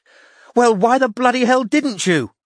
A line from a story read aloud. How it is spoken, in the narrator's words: said Anna loudly